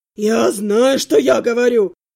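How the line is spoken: Growl, dwarf. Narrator (Russian): прорычал гном

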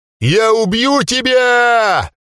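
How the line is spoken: Shout. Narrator (Russian): закричал он

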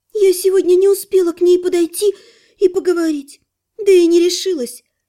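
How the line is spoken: Annoyed sigh. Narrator (Russian): с досадой вздохнула полуэльфийка

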